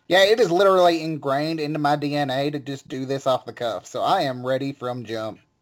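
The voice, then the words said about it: Exaggerated Southern redneck accent. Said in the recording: “your shitty Southern redneck accent ... over here who's from West Virginia ... I don't know how to beat ... I mean, good Lord.”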